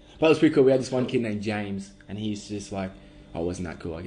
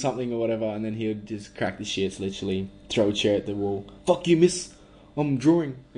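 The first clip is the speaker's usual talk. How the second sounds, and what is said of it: Put-on New Zealand accent. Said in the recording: “that was a Kiwi accent, though”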